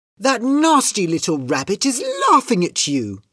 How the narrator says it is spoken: cried Kitty

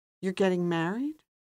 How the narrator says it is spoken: His voice was quiet now

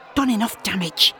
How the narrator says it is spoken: he hisses

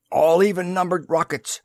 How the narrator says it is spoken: he barked

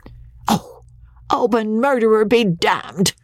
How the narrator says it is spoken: squeaked Andy in his falsetto of utter rage

